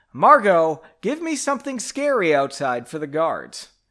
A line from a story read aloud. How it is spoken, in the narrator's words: Henry yelled